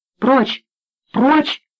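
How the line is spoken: Shouted. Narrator (Russian): закричал Слива

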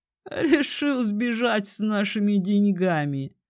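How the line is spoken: Chuckling. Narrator (Russian): хохотнул Этрейн

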